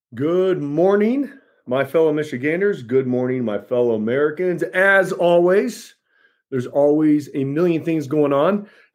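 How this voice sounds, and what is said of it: Hoarse, worn-out voice. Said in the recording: “That's why my voice is going. I've been speaking a lot.”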